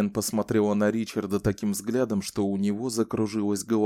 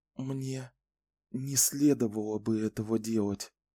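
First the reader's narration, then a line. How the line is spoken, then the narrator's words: Whisper. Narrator (Russian): прошептала она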